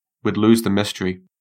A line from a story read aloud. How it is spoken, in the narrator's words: said